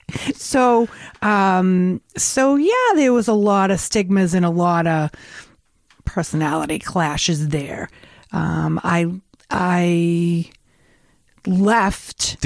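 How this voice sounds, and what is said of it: Revere, Massachusetts accent. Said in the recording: “if you didn't know by the accent, it's Revere, Massachusetts.”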